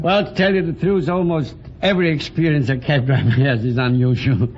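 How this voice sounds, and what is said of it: Viennese accent that sounds French. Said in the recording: “my accent. Everybody thinks I'm a Frenchman.”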